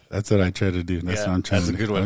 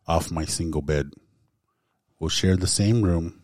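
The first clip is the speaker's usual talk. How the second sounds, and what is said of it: Flat monotone lecture-like reading. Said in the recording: “the way he's reading it, it sounds like, I don't know, like you're listening to a lecture or something ... monotone”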